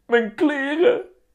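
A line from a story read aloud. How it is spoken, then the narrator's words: Shrieking. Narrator (Dutch): krijst Vera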